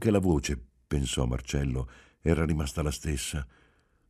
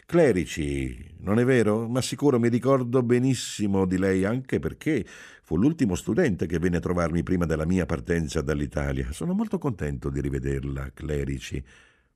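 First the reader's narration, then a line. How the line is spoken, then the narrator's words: Cordial yet indifferent. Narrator (Italian): Disse in tono cordiale e al tempo stesso del tutto indifferente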